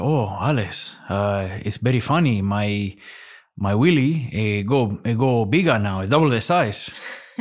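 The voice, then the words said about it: Imitated Spanish accent. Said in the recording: “is that a Spanish accent”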